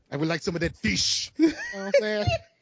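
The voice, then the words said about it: Put-on foreign accent. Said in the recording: “I would probably pick up some accent too while I was down there. ... What kind of accent you gonna pick up?”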